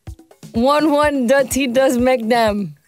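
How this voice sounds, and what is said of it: Guyanese accent. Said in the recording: “read out a DM from a Guyanese listener, word for word, and it was hilarious. Your accent is amazing. Please read out some of these Guyanese proverbs”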